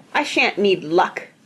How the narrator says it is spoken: snapped Mr

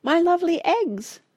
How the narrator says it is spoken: squeaked Tabitha

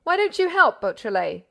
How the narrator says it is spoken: cried the old detective, gnashing his teeth with rage

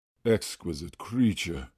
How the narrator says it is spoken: murmured the author

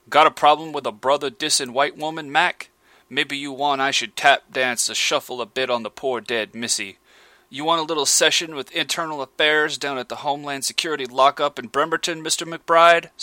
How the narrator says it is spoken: snarled the major

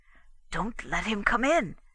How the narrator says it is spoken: he whispered

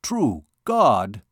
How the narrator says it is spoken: exclaimed the captain

